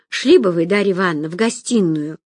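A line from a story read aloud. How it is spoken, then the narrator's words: Sighing. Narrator (Russian): вздохнула Ирка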